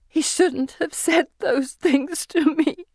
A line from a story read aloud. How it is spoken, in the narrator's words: she says in great hiccuping cries